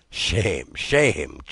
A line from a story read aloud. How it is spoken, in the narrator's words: chuckled the old man